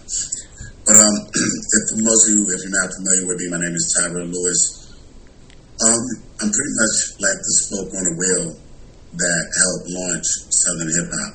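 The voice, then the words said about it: Hoarse voice, cutting in and out. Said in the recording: “I'm a little hoarse. I got allergies, so it's been killing me the last couple of days. So my voice is going in and out.”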